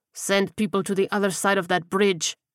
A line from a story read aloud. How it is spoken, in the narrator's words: he growled